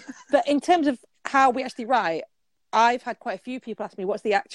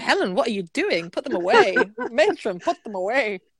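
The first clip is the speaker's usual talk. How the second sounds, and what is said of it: Kenneth Williams impression. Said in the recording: “doing a Kenneth Williams impression.”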